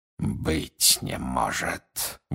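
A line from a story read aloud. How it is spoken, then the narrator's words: Breathed out. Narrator (Russian): выдохнул он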